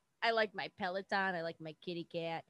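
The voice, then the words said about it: Put-on New York accent. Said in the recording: “That was a New York accent, right?”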